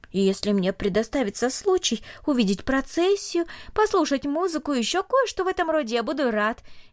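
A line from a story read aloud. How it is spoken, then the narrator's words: Cheerful. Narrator (Russian): весело сказал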